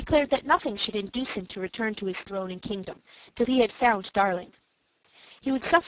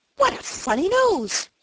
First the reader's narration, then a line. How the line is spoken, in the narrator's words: cried the one